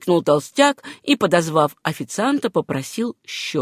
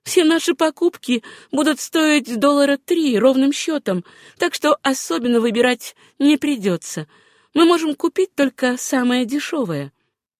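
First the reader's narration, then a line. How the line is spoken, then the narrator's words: Laughing reply. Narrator (Russian): расхохоталась и ответила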